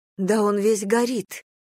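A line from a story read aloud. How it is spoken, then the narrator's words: Exclamation. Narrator (Russian): воскликнула Мэйв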